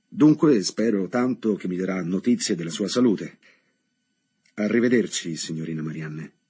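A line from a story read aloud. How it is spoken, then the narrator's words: Slightly reproachful repetition. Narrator (Italian): quasi in tono di rimprovero ripeté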